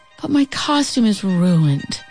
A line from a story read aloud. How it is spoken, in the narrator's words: Celie sighed